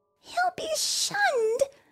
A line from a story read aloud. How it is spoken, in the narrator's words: Ruth whimpered